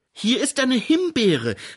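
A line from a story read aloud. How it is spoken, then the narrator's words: Calling out. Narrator (German): rief Grete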